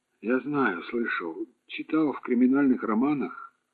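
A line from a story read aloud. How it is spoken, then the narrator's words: Calm. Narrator (Russian): спокойно начал Петров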